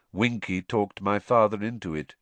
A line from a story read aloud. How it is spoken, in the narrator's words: said Crouch, still in the same monotonous voice